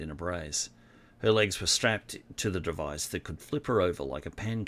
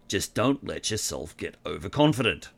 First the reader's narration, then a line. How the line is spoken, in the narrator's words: warned in his gruff voice